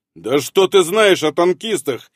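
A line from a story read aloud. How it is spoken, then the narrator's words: Angry blurt, composure lost. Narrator (Russian): Моментально растеряв невозмутимый вид, зло выпалил он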